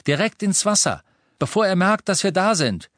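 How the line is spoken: Called back to others. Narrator (German): rief Harry nach hinten den anderen zu

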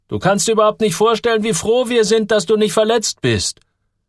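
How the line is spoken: Call. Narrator (German): rief Ludde

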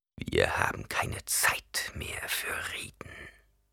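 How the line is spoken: Whispered. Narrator (German): flüsterte er

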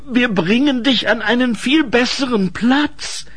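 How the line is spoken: Pleading. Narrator (German): flehte Ensel

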